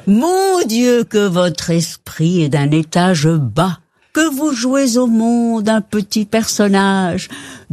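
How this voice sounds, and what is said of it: Put-on Belgian French accent. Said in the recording (French): “Mais avec l'accent belge, on va dire.”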